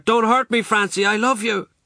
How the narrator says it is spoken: I heard him shout

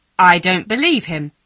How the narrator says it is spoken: said Miss Pole loudly

